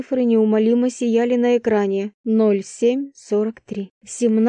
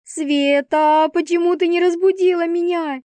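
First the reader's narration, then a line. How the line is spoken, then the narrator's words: Frantic yell. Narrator (Russian): Завопила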